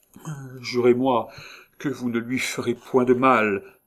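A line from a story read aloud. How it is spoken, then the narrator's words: Pleading tone. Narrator (French): intercéda Joulou d'un ton suppliant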